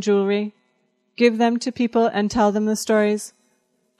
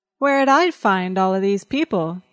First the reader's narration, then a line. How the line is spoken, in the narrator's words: He asked sullenly